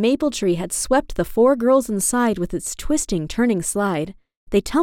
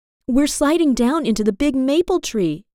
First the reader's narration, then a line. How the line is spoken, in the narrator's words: exclaimed Jade